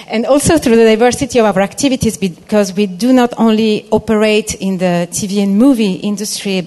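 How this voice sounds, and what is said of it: Italian accent. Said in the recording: “including Italian, as you might have guessed from my name or my accent”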